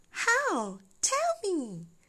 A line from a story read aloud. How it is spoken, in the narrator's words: Candy cried in all excitement